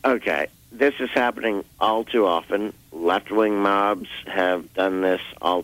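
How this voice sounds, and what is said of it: Slightly hoarse voice. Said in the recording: “Hope I'm not a little hoarse for y'all, but hope you can understand.”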